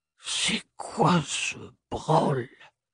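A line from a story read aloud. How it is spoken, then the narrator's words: Toneless breathless whisper. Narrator (French): souffla-t-il d'une voix blanche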